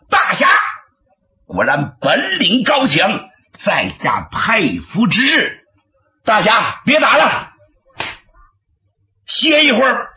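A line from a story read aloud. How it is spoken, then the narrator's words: Called from behind. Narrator (Chinese): 月亭在身后喊了一声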